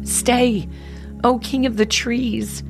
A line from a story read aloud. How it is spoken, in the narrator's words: cried the poor prince